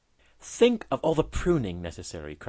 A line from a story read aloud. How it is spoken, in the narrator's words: cried he